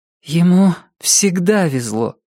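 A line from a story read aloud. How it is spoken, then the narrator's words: Sad. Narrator (Russian): грустно сказала Рози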